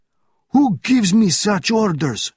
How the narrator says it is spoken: shouted the officer

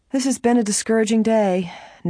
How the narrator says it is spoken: Nancy remarked, sighing,

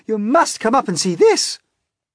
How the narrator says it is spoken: shouted

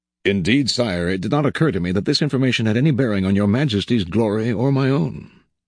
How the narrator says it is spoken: said Talleyrand calmly, completely unflustered

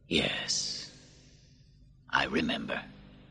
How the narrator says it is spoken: Marcus softly said

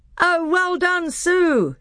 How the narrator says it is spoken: shouted the other children

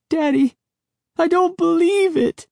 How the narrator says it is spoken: Sari wailed

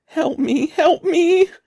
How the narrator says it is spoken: Conan ran bawling

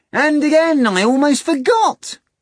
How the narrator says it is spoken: Azazello exclaimed

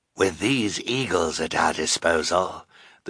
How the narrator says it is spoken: the sinister man said in his hoarse voice

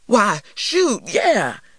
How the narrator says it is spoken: he exclaimed

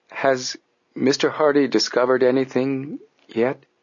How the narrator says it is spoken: Robinson said to Frank hesitantly

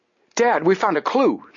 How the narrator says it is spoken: Joe cried

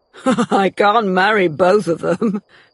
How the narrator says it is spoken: he laughed

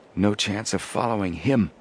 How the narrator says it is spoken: Joe muttered

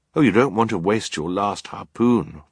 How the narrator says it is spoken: Violet said, thinking quickly

